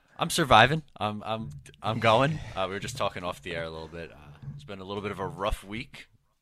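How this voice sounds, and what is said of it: Slightly off, cold-affected voice. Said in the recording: “my voice sounds a little off today, more annoying than usual ... coming down with a cold”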